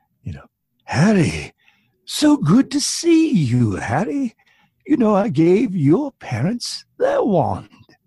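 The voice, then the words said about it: Old wizard voice imitating Ollivander. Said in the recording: “in my wizard voice ... I based it on a character in Harry Potter ... Ollivander in the Wand Shop”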